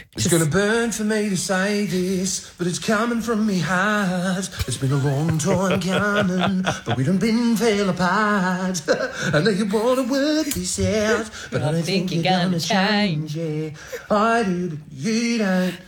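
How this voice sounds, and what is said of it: Singing R&B in Australian accent. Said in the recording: “it is not possible to sing R&B in an Australian accent, okay? Because it sounds gross ... singing R&B in an Australian accent just sounds yuck”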